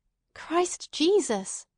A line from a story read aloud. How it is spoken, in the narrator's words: she cried